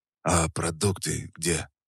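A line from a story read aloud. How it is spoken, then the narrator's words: Muffled hoarse voice. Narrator (Russian): Мой голос прозвучал глухо и хрипло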